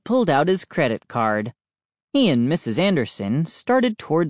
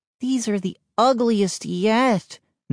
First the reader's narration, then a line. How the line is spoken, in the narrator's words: Mindy groaned